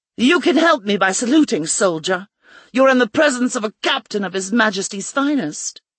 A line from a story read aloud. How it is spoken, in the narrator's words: She covered it with a scowl and barked